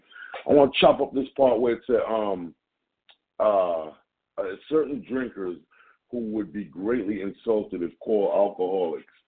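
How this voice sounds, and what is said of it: Jamaican accent. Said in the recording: “my Jamaican accent coming in”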